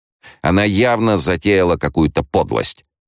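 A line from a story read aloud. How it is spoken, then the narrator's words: Accusing tone. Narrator (Russian): обвиняющим тоном сказал Монео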